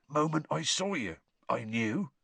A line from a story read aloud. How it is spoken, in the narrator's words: he was saying in an oddly husky voice